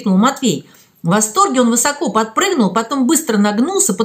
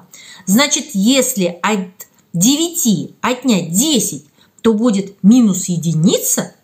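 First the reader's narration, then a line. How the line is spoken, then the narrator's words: Plain. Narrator (Russian): спросил Матвей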